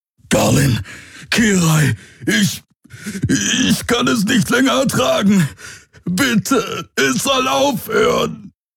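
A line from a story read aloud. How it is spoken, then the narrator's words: Roared. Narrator (German): Wieder brüllte er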